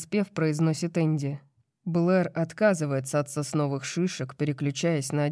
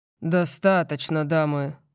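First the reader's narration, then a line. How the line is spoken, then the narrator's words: Bored tone. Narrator (Russian): произношу я скучающим тоном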